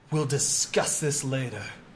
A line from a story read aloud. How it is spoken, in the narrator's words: he snarls and just says